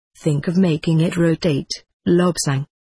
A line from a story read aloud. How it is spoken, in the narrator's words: said my guide